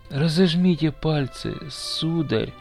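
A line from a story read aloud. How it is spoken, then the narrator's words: Barely audible child's voice. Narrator (Russian): еле слышно говорил мальчик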